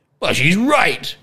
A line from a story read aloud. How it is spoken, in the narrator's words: yelled the king